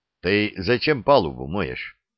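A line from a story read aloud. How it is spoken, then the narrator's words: Plain. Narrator (Russian): спросил Ксандр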